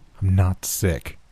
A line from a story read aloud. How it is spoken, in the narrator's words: I told him, my voice more level than it had ever been